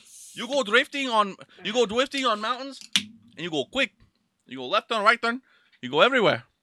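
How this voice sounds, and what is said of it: Put-on unidentified foreign accent. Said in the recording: “I don't even know what accent I'm doing.”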